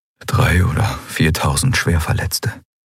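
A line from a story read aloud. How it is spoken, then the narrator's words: Quiet. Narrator (German): sagte Kai leise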